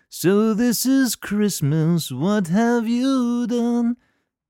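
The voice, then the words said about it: Imitates another person's singing voice. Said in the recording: “That's my best John Lennon impersonation.”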